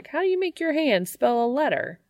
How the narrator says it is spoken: Dean exclaims

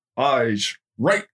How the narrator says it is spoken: Beller barked

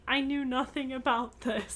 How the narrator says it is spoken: She kept daubing her eyes with a handkerchief and murmuring

